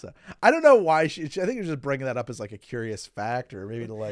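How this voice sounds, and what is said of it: Usual voice. Nothing is said of it.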